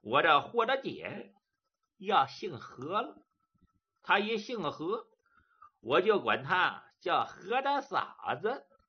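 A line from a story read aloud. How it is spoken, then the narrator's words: Laughing. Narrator (Chinese): 杜林笑了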